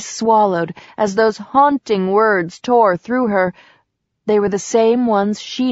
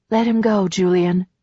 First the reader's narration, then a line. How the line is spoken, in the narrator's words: she said softly